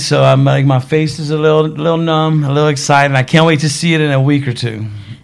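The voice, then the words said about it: Louisiana Southern accent. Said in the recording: “I love your accent. So you guys are from Louisiana.”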